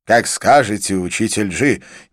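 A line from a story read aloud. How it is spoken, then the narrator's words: Sudden decisive exclamation. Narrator (Russian): неожиданно воскликнул Анкит решительным тоном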